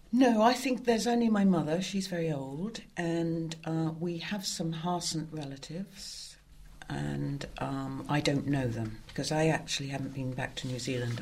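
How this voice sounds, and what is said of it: Very British accent. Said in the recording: “you have a very British accent.”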